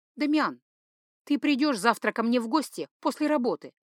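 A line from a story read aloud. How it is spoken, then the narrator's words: Strained, forced. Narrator (Russian): Рабея выдавила из себя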